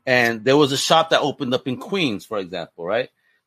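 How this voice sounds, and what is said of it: New York accent. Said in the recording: “I lived in New York for a long time, obviously, if you can hear my accent.”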